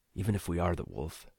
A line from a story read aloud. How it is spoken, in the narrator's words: Nico muttered